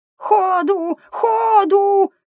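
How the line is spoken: Excited squeak. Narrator (Russian): пропищал взволнованно братец

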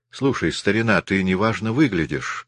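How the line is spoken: Plain. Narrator (Russian): сказал

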